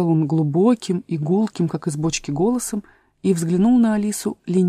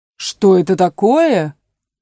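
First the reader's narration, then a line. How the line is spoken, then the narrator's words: Loud exclamation. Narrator (Russian): громко воскликнул единорог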